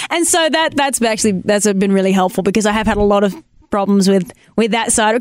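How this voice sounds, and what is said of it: Australian accent. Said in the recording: “laying into me about my accent ... your accent's great ... I say so many Australian, like, terms”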